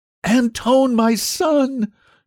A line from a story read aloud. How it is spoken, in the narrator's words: screamed